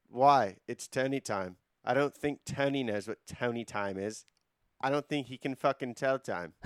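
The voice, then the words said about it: Imitates another person's voice. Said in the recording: “That was not a bad Josh accent.”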